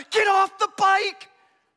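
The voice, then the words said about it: Shouting. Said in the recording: “I'm yelling,”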